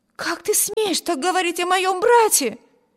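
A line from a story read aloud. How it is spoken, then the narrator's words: Exclamation. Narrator (Russian): воскликнула Эми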